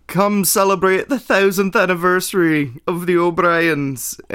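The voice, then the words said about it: Bad put-on Irish accent. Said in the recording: “that was a really terrible accent... I apologize to... The O'Briens, the Irish people”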